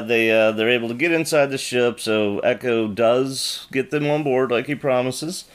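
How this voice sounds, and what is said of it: Usual voice. Nothing is said of it.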